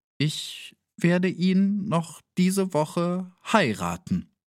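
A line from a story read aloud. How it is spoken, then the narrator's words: Slightly unsteady reply. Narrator (German): erwiderte sie mit etwas unsicherer Stimme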